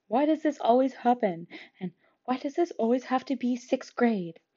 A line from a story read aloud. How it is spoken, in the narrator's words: muttering